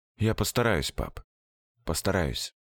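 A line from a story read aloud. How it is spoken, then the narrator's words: Low serious voice. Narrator (Russian): Сережа сказал вполголоса, серьезно, не по возрасту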